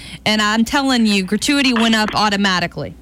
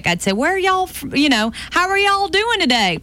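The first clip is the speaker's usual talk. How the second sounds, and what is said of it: Thick put-on Southern accent. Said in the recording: “I would lay on the southern accent thick.”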